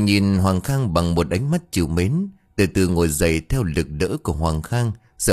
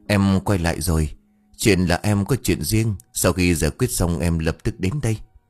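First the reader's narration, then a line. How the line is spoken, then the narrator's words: Gentle voice. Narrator (Vietnamese): Hoàng Khang giọng nhẹ nhàng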